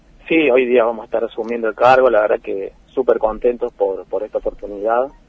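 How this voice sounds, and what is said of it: Cordoba Argentine Spanish accent. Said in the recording (Spanish): “El acento cordobés que tenés ... cordobés, cordobés de pura cepa.”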